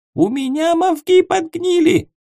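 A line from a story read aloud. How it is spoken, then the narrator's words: Indignant squeak. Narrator (Russian): Возмущенно пропищала зверокнига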